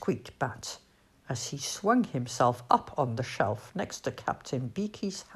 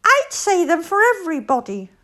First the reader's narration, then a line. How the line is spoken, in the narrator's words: squeaked Bat